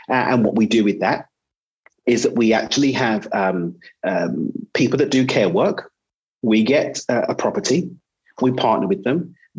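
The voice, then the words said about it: British accent. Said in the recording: “in the UK. That's where I'm from. That's where the funny accent's from.”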